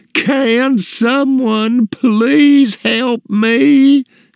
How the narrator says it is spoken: screamed

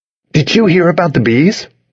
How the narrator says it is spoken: he asked cheerfully

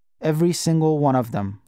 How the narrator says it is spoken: I said

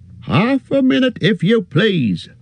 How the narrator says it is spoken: shouted the man over his shoulder

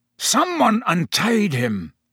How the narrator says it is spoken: the executioner was snarling

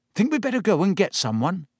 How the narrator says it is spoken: said Ron nervously

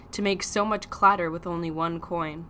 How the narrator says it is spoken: said dryly

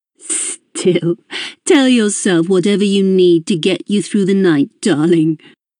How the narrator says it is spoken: she said, laughing

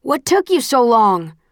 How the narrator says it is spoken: Will shouts over the horn

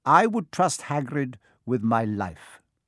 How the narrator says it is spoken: said Dumbledore

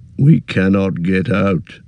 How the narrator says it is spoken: muttered Gimli

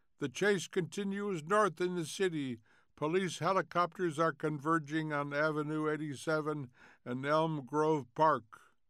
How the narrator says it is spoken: A voice cried

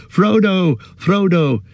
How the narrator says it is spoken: Merry and Pippin shouting

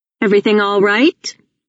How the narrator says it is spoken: Wolfe says sharply

